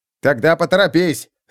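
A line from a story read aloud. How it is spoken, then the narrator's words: Barked. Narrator (Russian): рявкнул он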